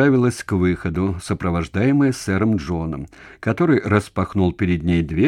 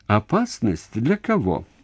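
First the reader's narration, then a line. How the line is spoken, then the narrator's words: Laughing. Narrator (Russian): рассмеялась Джоанна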